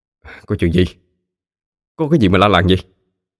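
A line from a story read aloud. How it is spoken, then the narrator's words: Irritable snap. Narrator (Vietnamese): chú liền gắt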